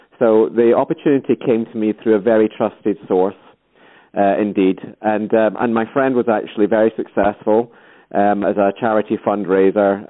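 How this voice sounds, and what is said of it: Scottish accent. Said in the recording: “I'm Scottish as well, you can probably tell from the accent.”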